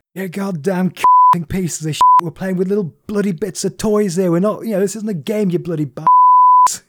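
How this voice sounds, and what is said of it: Imitates another person's voice, weak English accent. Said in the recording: “I can't do a Gordon Ramsay voice. That's the best. I mean, it's like when an American tries to do an English accent.”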